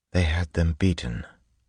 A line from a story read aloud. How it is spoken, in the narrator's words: Vin whispered